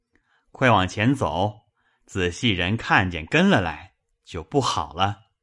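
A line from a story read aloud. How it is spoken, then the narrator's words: Laughing. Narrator (Chinese): 香莲笑道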